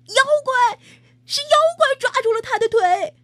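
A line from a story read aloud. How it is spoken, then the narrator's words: Shouted. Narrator (Chinese): 不知是谁喊了一声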